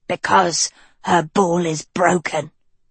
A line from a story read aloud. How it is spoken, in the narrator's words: grunted Anadil